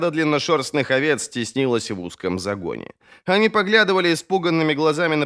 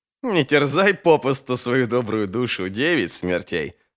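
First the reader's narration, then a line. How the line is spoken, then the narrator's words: Laughing. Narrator (Russian): рассмеялся Круммох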